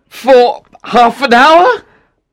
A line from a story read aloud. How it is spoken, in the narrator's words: said Octavian anxiously